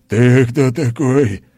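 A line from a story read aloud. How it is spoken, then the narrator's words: Furious roar. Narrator (Russian): взревел он, яростно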